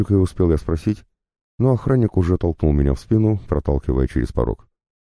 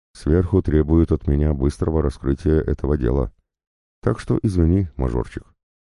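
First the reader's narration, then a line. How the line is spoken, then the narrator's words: Quiet. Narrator (Russian): он тихо произнес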